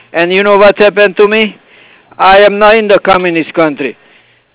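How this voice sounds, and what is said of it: Hungarian accent. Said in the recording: “what type of accent is that? ... I came from Hungary.”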